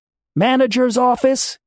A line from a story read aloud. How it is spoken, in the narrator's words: yelled